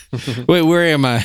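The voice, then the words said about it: Impression of Joe Biden. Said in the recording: “Impersonating Joe Biden.”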